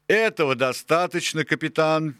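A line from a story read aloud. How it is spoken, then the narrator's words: Cheerful exclamation. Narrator (Russian): весело воскликнул долговязый Джон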